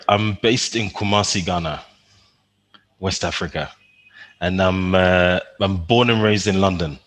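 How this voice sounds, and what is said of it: London accent, not quite Ghanaian. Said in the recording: “your accent isn't quite Ghanaian”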